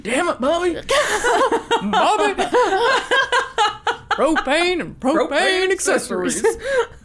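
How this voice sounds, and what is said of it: Hank Hill cartoon character impression. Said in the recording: “best Hank Hill impression ... Best Hank Hill impression.”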